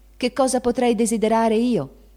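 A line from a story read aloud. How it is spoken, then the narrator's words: Shouting. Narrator (Italian): gridò Meg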